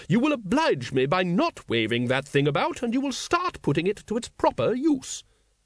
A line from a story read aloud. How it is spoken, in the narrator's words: said sharply